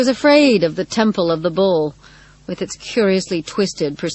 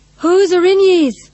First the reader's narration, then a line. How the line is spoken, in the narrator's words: Rosie shouted